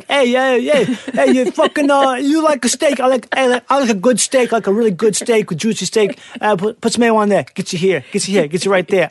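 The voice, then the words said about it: Put-on Italian accent, commercial pitchman. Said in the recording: “some Italian dude ... With the accent”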